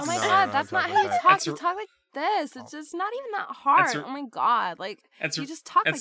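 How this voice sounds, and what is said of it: Put-on Valley Girl accent. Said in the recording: “She is the Valley Girl Goddess of the Sea. ... I would have to do a Valley Girl accent.”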